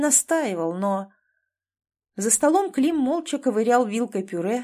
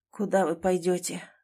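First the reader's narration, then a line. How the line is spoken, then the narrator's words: Muffled, forced out. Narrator (Russian): глухо выдавил из себя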